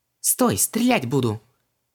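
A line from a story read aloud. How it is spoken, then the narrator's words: Indignant exclamation. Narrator (Russian): возмущенно воскликнула Ванесса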